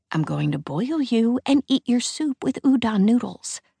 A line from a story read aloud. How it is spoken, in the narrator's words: I murmur